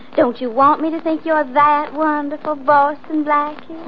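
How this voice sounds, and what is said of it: Put-on accent. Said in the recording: “Do you have to like me with an accent?”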